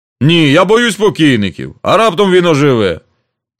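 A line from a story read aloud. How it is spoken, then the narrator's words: Speech then loud laughter. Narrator (Ukrainian): сказав і голосно засміявся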